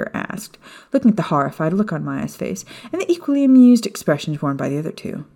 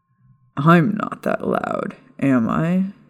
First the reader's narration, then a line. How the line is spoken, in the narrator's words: Sirius asked with a chuckle